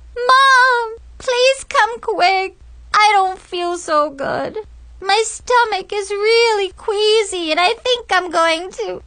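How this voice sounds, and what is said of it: Really whiny voice. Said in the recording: “in a really whiny voice,”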